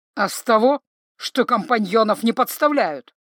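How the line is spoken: Angry reply. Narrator (Russian): зло ответил ему Павоне

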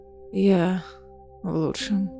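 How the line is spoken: Breathed out. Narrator (Russian): выдохнула она

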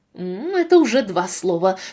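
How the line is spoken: Through gritted teeth. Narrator (Russian): сказала Кейси сквозь зубы

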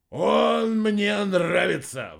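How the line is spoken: Loud bark, burly speaker. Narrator (Russian): в голос рявкнул здоровенный серп

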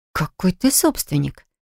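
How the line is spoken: Quiet astonishment. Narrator (Russian): тихо поразилась я

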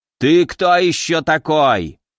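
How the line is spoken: Old man yelling, running off. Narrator (Russian): заорал старик, отбегая

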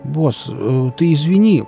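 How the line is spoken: Mumbling. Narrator (Russian): промямлил Нарк

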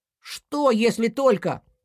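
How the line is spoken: Shouting in chorus. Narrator (Russian): закричали друзья хором

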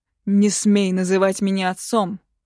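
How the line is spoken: Roared. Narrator (Russian): взревел лор Иллариот

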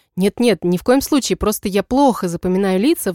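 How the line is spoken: Sighing. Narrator (Russian): вздохнула я

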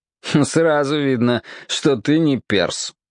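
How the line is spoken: Snorting. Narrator (Russian): хмыкнул Шах

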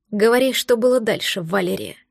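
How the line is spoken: Disgusted growl. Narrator (Russian): прорычал Грег, словно ему было тошно смотреть в мое лицо

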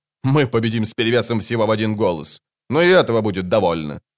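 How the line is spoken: Mocking smirk. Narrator (Russian): он насмешливо ухмыльнулся

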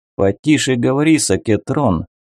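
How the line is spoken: Displeased grumble, elderly man. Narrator (Russian): недовольно буркнул лейтенант Мак, пожилой дядечка

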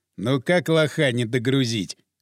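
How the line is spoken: Chuckling. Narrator (Russian): хохотнул Капрал

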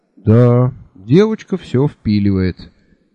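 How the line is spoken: Sad admiration. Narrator (Russian): печально восхитился Анде

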